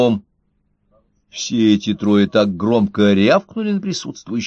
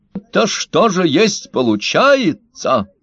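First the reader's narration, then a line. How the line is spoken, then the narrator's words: Monster exclaiming, alien accent. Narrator (Russian): воскликнул один из трехногих монстров с явным неземным акцентом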